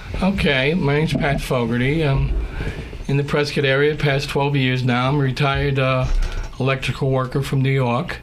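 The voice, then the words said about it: Slight Bronx New York accent. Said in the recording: “I hear a little bit of an accent there ... A little Bronx.”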